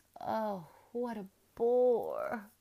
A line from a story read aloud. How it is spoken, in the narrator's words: wailed Isabel